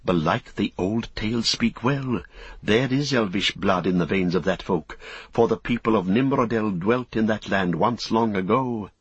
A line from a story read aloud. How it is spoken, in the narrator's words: Men that saw them whispered, saying